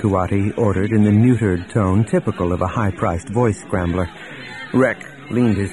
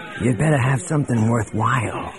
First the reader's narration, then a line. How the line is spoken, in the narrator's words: hissed